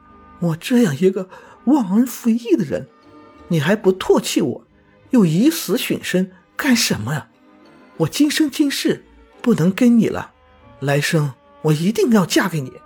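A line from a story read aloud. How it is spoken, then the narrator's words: Crying. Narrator (Chinese): 连城哭着说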